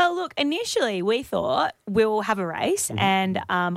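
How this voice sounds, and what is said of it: Usual voice. Nothing is said of it.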